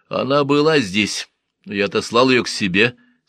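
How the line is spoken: Plain. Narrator (Russian): сказал лекарь

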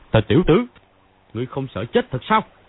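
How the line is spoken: Thundering shout. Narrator (Vietnamese): Phàn Nhất Ông quát

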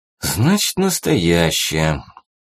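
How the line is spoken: Sigh. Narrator (Russian): вздохнул барин

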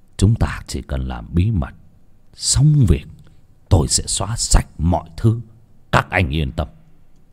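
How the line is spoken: Lowered voice. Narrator (Vietnamese): ông Phát hạ giọng

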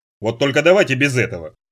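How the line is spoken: Irritated. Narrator (Russian): раздраженно скривился Ярчук

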